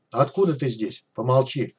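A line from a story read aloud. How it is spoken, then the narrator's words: Rude rebuke. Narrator (Russian): грубо отдернула его Вера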